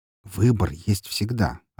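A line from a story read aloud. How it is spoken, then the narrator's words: Plain. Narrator (Russian): ответил я ей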